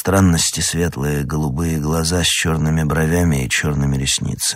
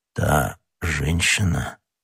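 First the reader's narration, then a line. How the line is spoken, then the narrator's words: Muffled, barely audible question. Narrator (Russian): переспросил Атос таким глухим голосом, что Д'Артаньян едва расслышал его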